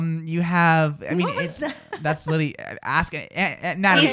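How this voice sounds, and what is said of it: Usual voice. Nothing is said of it.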